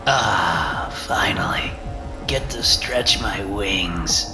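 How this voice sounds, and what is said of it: Raspy whisper. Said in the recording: “The voice is barely more than a raspy whisper”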